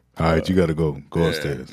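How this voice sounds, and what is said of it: Very deep imitated dad voice. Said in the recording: “The deepest of voices. ... That's my dad voice.”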